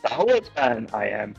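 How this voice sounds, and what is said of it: Imitates Yoda's voice. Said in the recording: “Yoda's very cool. I can do that voice”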